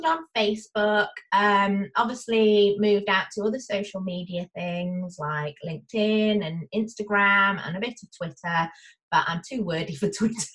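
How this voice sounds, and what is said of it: Northwest English accent. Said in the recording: “So your accent tells us you're from... ... I don't sound like the Queen's English ... I am North England, northwest, near Liverpool and Manchester”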